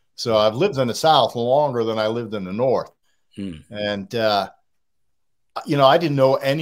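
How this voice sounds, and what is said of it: Boston accent. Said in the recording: “You're a Bostonian. You can hear it in the accent.”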